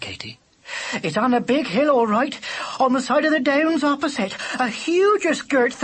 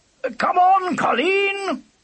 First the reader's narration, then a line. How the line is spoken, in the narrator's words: shouted Lubber